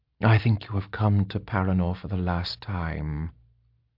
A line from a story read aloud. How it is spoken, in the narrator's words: Shadea continued softly